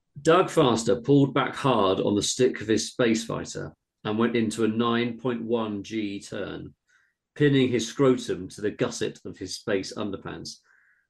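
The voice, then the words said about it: Thick Australian accent. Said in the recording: “please read all the text highlighted yellow in a thick Australian accent.”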